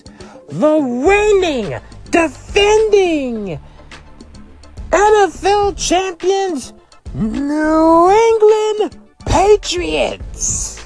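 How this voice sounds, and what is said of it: Paul Heyman impression. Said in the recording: “get in my Paul Heyman voice.”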